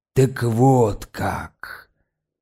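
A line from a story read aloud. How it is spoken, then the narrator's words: Strangely calm voice. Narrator (Russian): промолвил он странно спокойным голосом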